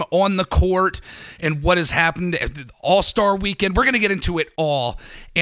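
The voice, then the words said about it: Raspy, strained voice. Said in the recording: “I have to apologize for my raspy voice ... I'm still recovering”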